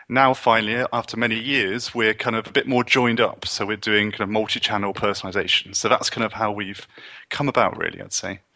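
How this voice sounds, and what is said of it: British accent. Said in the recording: “based on your accent, I can uh, venture to guess you're not Canadian, uh, that you're somewhere from British Isles”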